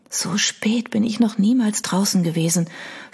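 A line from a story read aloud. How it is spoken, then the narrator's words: Whispered. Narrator (German): flüsterte sie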